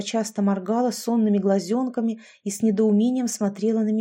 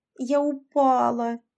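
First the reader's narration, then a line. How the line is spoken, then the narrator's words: Moaning. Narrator (Russian): простонала я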